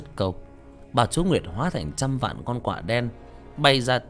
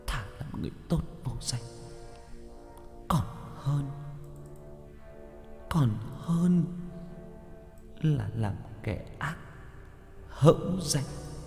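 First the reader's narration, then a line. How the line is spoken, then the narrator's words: Tearful, choked voice. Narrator (Vietnamese): Bà chúa Nguyệt nói trong nước mắt, trong sự nghẹn ngào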